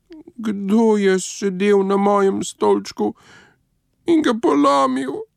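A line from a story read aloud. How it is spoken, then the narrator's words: Thin mouse-like squeak. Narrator (Slovenian): Miško pa je zacvilil tanko kot miš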